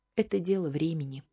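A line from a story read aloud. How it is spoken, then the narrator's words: Sighing. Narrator (Russian): вздохнула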